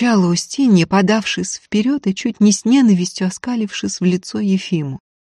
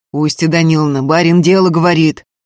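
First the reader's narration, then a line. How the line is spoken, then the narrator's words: Deep bass voice. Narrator (Russian): басил Антип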